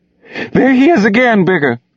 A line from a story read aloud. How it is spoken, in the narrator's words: the woman screamed